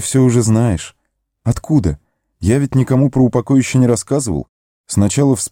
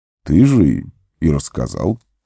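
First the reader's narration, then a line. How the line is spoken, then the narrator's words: Calm. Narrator (Russian): спокойно произнес маг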